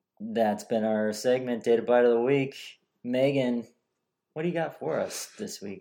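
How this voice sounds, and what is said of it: Sportscaster-style radio announcer voice. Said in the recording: “You sound like a sportscaster. ... that was my radio voice.”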